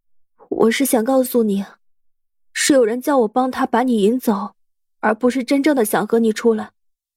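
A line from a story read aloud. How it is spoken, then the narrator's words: Sighing, deeply guilty. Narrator (Chinese): 杨桃儿叹了口气，愧疚无比的说道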